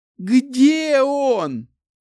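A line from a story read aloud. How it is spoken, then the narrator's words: Furious straining shout. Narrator (Russian): яростно закричала она, расходуя уйму сил на это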